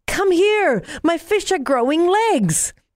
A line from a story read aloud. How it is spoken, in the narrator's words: yelled with excitement